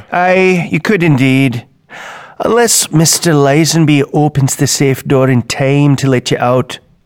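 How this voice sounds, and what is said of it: Scottish brogue accent. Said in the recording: “'tis a Scottish brogue I have”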